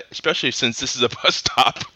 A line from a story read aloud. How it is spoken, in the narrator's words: chuckled the vet